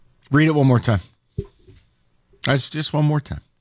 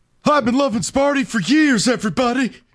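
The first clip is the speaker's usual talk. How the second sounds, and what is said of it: Imitates another person's voice. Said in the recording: “That's a good impression... That's a great impression.”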